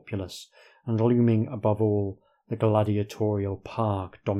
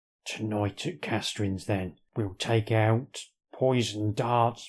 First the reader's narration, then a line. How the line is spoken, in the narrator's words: mumble, mumble, mumble